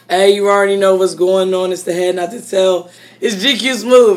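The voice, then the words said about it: Hoarse, strained voice. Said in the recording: “my voice is a little messed up because I've been yelling ... we just been screaming”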